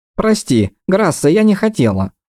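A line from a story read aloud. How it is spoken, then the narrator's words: Thin mouse-like squeak. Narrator (Russian): пропищала Таеса тоненько, будто мышь из-под печки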